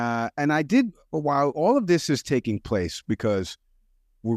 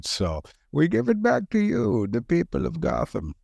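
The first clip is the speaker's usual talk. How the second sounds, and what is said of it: Deep muffled Bane villain voice. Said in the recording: “my Bane impression right now ... It's a very good impression.”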